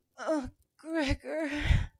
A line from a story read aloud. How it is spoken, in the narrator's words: I gasped, mooning his name on reflex